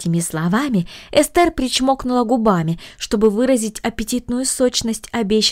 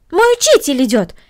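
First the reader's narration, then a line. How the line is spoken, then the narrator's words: Exclaimed. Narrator (Russian): воскликнула Корнелли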